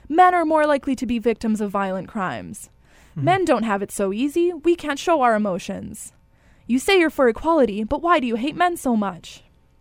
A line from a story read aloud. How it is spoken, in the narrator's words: You'll keep shouting it over and over